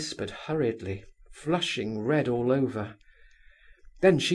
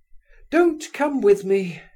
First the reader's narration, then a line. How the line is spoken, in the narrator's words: she cried